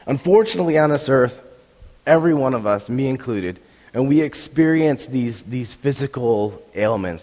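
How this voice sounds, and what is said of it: Sick, strained throat voice. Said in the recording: “you can tell my voice is not the same as it normally is it? It's completely different. Completely different. ... I do have strep throat.”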